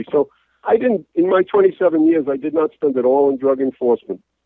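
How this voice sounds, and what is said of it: New York accent. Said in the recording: “you may tell from my accent that I'm originally a New Yorker”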